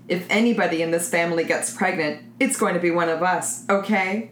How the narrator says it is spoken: Jim chuckled in spite of his misery

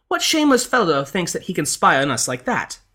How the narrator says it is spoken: the lady cried out

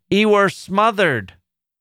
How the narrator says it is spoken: The man replied more loudly

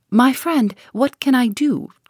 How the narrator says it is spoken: cried the professor, piteously

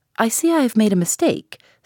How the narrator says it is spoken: said I

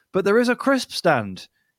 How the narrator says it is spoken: he exclaimed

